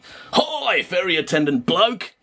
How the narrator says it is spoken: he shouted

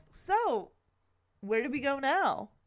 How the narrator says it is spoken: Kevin excitedly asks

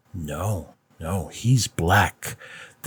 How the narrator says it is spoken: the people on his left growled

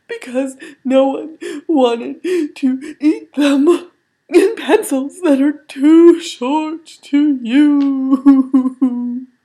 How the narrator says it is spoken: he cried

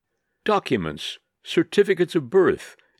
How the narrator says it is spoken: exclaimed the enemies of Rosen

